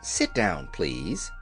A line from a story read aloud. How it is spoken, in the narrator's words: she said quietly